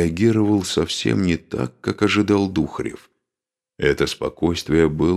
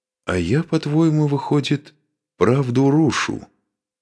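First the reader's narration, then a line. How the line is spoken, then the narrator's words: Completely calm question. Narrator (Russian): совершенно спокойно поинтересовался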